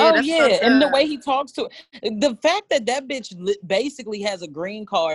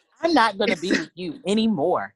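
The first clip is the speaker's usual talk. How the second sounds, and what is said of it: Robotic translator-app voice. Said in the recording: “with the little robot voice ... that fucking translator app”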